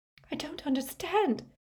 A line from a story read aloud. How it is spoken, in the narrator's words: she whispered